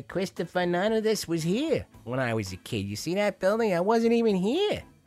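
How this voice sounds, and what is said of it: High-pitched imitation with pronounced accent. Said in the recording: “I'm probably doing his voice a little too high. That's more like Joe Pesci. But he had a pronounced accent.”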